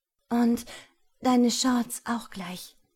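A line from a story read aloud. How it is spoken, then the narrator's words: Said breathlessly. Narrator (German): sagte ich atemlos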